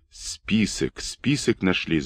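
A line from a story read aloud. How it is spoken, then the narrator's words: Sailors whispering. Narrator (Russian): зашептались матросы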